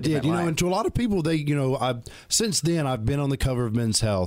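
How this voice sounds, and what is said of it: Southern US Alabama accent. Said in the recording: “Where are you from originally? ... I'm from Alabama. ... I heard that accent.”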